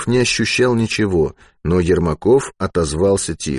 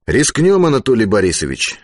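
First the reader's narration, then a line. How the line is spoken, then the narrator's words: Cheerful reply. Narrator (Russian): бодро ответил Алексей Петрович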